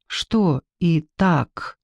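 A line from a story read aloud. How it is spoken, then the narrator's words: Quiet question. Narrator (Russian): тихо спросила Ксения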